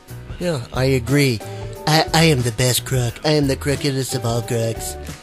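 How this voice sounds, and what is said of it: Imitates another person's voice. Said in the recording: “Sometimes I even hate hearing myself do the impersonation ... quit doing Trump”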